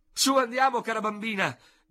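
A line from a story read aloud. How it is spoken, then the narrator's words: Shout from the door. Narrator (Italian): gridò dalla porta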